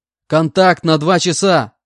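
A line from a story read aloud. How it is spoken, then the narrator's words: Shouted out. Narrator (Russian): выкрикнул я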